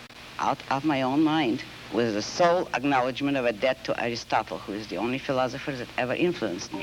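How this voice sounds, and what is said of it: Russian accent. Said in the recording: “You have an accent which is... Russian.”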